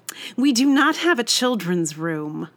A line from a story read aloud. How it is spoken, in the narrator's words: said sharply